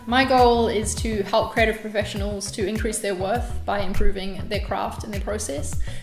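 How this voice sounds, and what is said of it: New Zealand accent. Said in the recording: “I'm from New Zealand, in case you're wondering about the accent”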